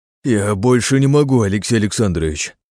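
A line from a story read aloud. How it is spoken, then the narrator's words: Groaning. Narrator (Russian): простонал Кострицын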